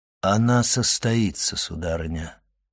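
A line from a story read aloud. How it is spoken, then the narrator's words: Solemn declaration. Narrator (Russian): торжественно заявил Монте-Кристо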